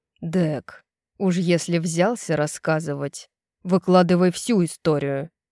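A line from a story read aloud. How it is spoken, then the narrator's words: Grumbling. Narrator (Russian): проворчал Рун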